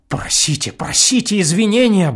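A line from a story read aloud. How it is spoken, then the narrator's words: Anxious group muttering. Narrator (Russian): бормотали вокруг штопеля встревоженные наследники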